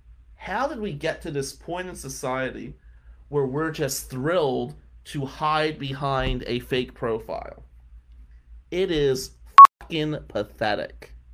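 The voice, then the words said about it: New Jersey accent. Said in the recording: “I got a Jersey accent”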